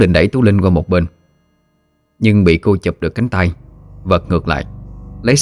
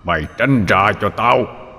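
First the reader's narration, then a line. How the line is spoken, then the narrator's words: Growling, old man's voice. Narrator (Vietnamese): Tấn gầm gừ rồi nói bằng cái giọng ông già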